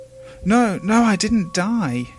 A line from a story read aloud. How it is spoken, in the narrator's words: cried the voice